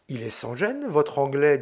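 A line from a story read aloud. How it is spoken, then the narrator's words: Young man's low Italian. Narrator (French): dit tout bas en italien le jeune homme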